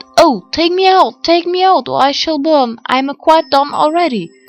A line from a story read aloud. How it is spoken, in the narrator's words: the bread cried out